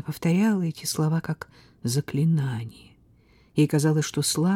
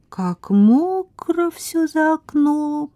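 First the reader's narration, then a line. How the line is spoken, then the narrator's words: Lazy drawl while stretching. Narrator (Russian): протянула, потягиваясь, Тамара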